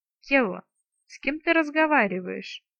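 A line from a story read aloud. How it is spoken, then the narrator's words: Lord's insinuating question. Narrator (Russian): вкрадчиво поинтересовался повелитель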